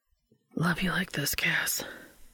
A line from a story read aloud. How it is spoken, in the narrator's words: he whispered